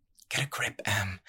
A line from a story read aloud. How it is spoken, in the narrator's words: said under her breath